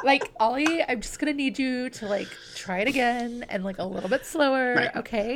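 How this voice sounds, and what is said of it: Put-on Valley Girl accent. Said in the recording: “when you do your Valley Girl accent ... I just channeled my inner Alexis”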